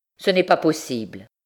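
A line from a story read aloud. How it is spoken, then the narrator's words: Curt refusal, father. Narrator (French): refusa le père d'un ton plus sec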